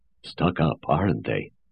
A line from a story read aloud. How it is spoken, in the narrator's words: observed Two in a genial whisper